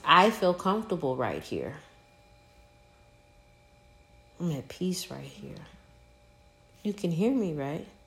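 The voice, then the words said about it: Calm, soft, soothing voice. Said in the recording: “why would I raise my voice? ... It's soothing.”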